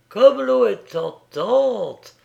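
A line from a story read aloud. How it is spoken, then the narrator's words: Exclaiming. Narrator (French): s'exclama Madeleine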